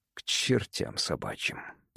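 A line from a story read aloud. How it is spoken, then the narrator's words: Mutter. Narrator (Russian): пробормотал Эверард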